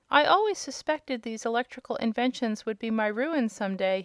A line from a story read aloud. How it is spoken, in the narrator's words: reflected sadly